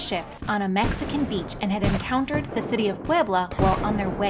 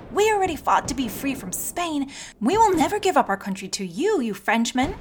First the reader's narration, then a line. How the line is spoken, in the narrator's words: their determined eyes seemed to scream